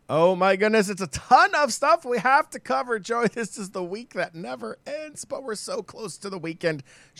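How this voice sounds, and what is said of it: Worn-out, strained voice. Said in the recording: “my voice is pretty shot already”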